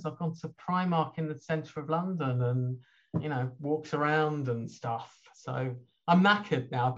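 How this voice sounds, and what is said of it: Slightly hoarse voice. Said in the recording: “I've got a slightly hoarse voice. That's not my natural sexy voice. That is just actually, that's illness.”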